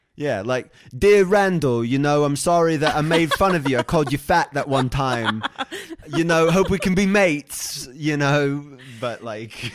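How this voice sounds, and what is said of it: James Kennedy impression. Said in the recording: “great James Kennedy impression”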